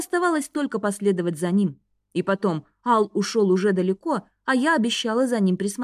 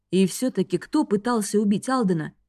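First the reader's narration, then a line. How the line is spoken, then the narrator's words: Plain. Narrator (Russian): спросил Рейн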